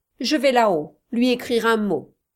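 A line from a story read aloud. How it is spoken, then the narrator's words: Curt, sharp tone. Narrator (French): dit Munden d'un ton assez cassant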